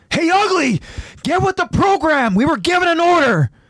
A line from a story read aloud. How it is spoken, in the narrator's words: yells out